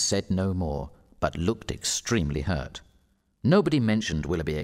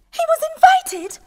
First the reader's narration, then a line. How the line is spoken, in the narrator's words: cried Marianne